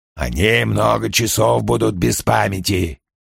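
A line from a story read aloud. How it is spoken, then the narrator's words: Hoarse fat man. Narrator (Russian): это сказал толстяк с хриплым голосом и редкозубой ухмылкой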